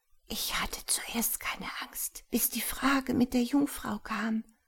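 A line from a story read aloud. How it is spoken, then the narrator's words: Murmured into ear. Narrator (German): Frau Theen … raunte mir ins Ohr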